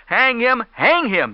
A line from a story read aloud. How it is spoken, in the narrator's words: they cried